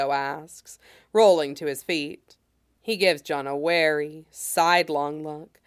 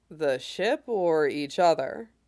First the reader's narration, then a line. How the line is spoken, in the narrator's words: John asks dryly